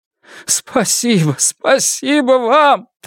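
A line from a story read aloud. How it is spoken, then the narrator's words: Rapid chatter between sobs. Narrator (Russian): тараторил Сю Лян Сен между всхлипами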